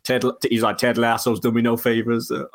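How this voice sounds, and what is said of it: Terrible put-on American accent. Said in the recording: “That's a terrible American accent.”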